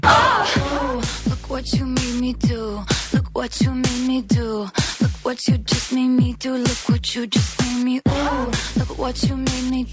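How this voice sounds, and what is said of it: Strange fake accent in singing. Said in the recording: “She's using some sort of fake accent in there that's strange ... Oh, it's a weird. She's doing something.”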